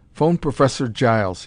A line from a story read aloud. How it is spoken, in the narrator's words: said sharply